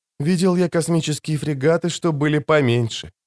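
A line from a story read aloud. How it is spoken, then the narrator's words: Whispered. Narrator (Russian): прошептал Пауль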